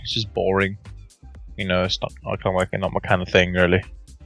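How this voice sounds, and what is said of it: Very thick British accent. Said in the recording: “you have like the thickest British accent I've ever”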